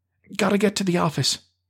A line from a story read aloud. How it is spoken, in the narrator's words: Betty cried